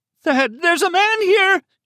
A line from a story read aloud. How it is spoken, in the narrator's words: she screamed into the telephone